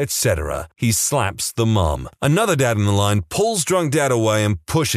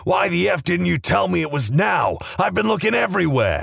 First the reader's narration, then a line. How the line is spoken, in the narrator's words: a guy storms in, clearly drunk, starts shouting at a woman in the line